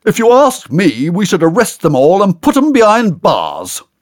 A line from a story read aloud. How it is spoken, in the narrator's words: loudly booms